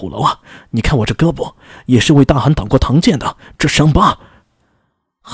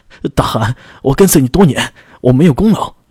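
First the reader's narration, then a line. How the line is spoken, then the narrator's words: Terrified anguished wail. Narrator (Chinese): 将领吓得撕心裂肺的喊道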